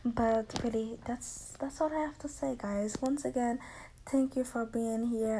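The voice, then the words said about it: Accented, fairly fast speech. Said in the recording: “I speak a little bit fast in my accent.”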